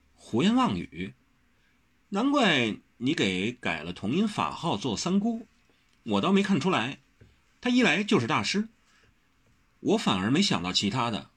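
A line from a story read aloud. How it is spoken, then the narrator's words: Laughing scolding. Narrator (Chinese): 何小荷笑斥道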